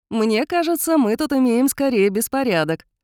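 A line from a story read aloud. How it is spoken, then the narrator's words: Cheerful objection. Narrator (Russian): весело возразил Кайлин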